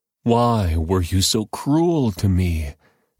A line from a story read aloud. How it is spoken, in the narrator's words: Jacob moaned